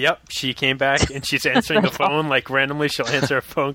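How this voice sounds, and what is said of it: Usual voice. Nothing is said of it.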